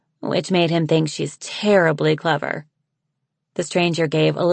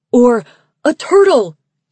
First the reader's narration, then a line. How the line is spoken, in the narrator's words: he shouted